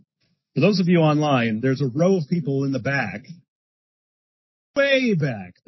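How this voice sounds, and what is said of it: Shouting. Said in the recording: “That's why I'm shouting.”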